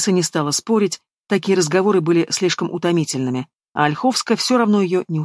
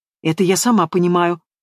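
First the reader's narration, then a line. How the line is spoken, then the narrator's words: Snorting. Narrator (Russian): фыркнула Янка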